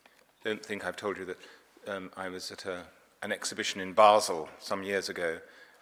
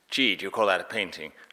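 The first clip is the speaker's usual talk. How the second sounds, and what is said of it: Briefly puts on a tourist's accent. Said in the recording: “this accent.”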